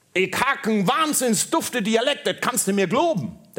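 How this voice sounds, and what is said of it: Put-on Berlin dialect. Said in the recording (German): “Der Berliner sagte”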